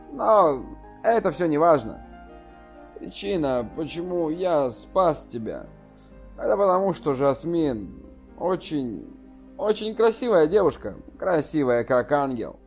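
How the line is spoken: Soft. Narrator (Russian): мягко сказал

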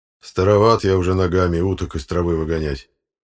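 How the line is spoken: Grumbling. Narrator (Russian): проворчал он

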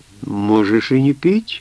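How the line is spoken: Melodious voice. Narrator (Russian): мелодичным голосом сказала Амур Мирбале

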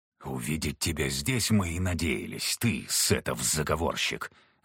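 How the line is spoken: Hissed. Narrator (Russian): зашипел Виктор

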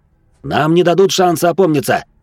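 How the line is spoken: Shout. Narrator (Russian): крикнул я Латию

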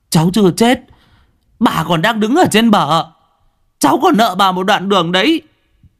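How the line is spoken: Wailing. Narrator (Vietnamese): nó gào

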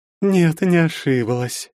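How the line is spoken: Languid voice. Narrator (Russian): еще более томным голосом сообщила Анфиса

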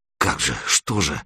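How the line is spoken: Muttering. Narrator (Russian): бормотал Серега

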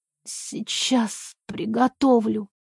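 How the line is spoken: Hoarse reply. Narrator (Russian): Хрипло отвечаю

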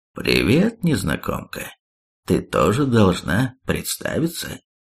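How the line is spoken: Wise patronizing, smirking. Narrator (Russian): Зардрак усмехнулся и мудрым покровительственным голосом сказал

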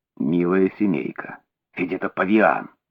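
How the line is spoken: Barely audible murmur. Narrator (Russian): тихо рассмеялся и, приблизив губы к моему уху, пробормотал еле слышно

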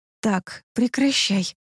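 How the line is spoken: Whispering against lips. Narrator (Russian): в губы прошептала я

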